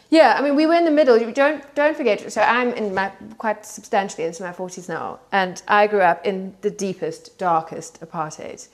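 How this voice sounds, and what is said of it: South African accent. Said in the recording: “as you can tell from my accent, I grew up in South Africa”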